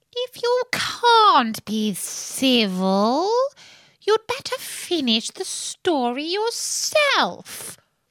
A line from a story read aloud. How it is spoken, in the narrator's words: the Dormouse sulkily remarked